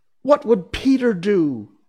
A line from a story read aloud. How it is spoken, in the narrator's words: they cried simultaneously